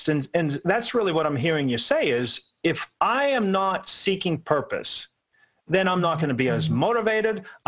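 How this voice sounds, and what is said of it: Pittsburgh accent. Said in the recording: “I'm from Pittsburgh, so horrible accent here, forgive me”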